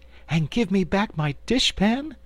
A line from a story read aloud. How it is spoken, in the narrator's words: added eagerly